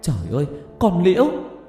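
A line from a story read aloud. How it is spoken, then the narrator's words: Shocked shouting, several voices. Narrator (Vietnamese): cả ba má con cùng hét lên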